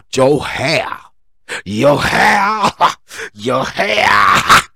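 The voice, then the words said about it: Preacher-style voice. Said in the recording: “preacher voice”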